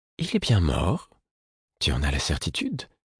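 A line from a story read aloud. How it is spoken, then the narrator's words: Timid woman asking. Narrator (French): la femme aux taches de son demanda timidement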